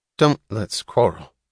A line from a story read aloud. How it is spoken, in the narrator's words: said his mother, her voice cheerless and vague